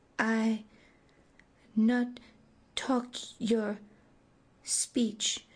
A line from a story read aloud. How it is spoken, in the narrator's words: demurred hesitantly